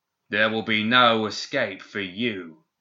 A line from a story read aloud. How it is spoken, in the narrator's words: the stranger said in that unnatural voice, filled at once with grating highs and rumbling lows